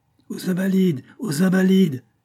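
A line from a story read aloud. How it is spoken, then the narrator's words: Crowd howling with growing ferocity. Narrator (French): hurlaient les voix avec une férocité croissante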